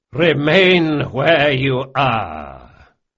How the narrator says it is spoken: boomed a voice with an air of assured command

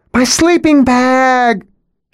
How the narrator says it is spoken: She wails

